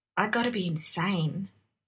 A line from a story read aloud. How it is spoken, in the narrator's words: muttered